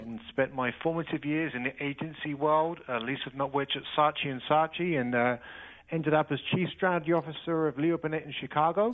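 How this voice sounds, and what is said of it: British accent. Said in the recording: “you can probably tell from my accent, I'm not from these parts. I was born and raised in the U.K.”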